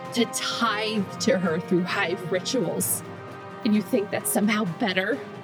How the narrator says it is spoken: she nearly choked on the words

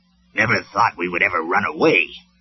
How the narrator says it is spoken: Huffer grumbled

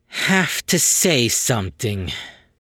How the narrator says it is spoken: The little merc sighed and finished

